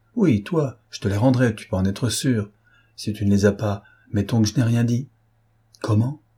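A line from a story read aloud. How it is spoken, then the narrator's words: Scandalized exclamation. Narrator (French): s'écria Platon, scandalisé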